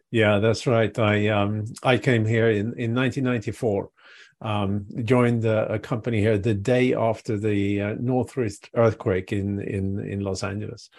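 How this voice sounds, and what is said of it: Foreign accent, originally Swedish. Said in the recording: “you can tell by the accent, he's not from Alabama... is from originally Sweden”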